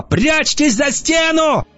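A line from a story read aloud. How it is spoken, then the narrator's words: Yelling. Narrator (Russian): Бронвин заорала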